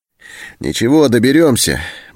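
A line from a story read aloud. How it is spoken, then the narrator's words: Cheerful. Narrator (Russian): бодро сказал Антон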